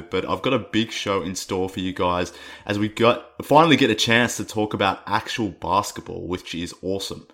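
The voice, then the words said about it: Rough, hoarse voice. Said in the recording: “my voice is a little rough right now. I've been a little under the weather ... bear with me with my voice on this one. It's a little rough, a little bit more annoying than usual”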